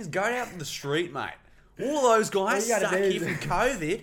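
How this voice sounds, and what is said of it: Put-on Australian accent. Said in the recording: “Give us an Aussie.”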